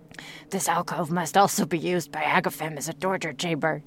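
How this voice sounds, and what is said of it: Put-on French accent. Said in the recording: “Did you like my French accent? I've been practicing really hard anyway.”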